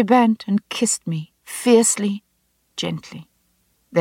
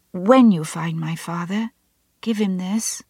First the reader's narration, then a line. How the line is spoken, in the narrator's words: she whispered